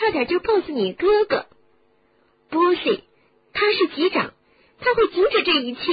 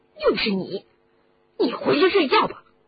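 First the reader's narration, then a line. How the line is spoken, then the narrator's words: Annoyed. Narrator (Chinese): 罗恩恼怒地说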